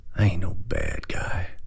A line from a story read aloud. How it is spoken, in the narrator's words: He said very quietly